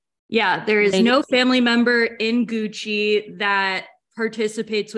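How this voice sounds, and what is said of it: Usual voice. Nothing is said of it.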